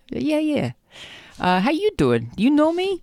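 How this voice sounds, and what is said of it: New Jersey accent. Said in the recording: “I sounded very Jersey just then.”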